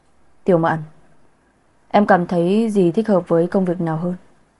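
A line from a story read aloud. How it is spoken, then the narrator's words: Cool, impassive question. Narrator (Vietnamese): Vẻ mặt lạnh lùng không một chút thay đổi, hỏi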